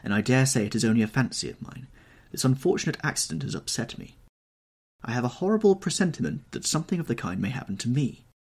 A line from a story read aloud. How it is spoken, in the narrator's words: he answered sadly